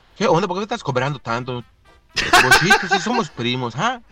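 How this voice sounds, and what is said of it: Put-on local Yucatán accent. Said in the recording (Spanish): “el acento típico de acá de Yucatán”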